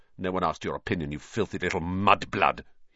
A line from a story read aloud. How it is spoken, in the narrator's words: he spat